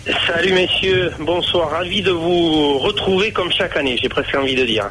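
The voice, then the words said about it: Noticeable regional French accent. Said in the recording (French): “quel bel accent”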